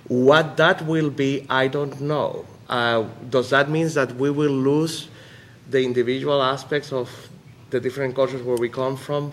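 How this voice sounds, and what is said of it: Puerto Rican Spanish-accented English. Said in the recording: “I'm first generation Puerto Rican here and came at a very late age. That's why I have an accent that I'm not even trying to get rid of.”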